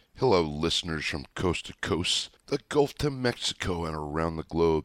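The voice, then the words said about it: Slightly hoarse voice. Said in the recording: “my voice sounds just a bit hoarse”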